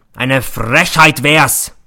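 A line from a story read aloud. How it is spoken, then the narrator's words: Roaring. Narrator (German): brüllt er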